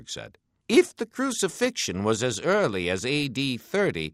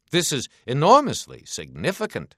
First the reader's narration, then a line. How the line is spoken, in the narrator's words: he said, his voice rising a bit in emphasis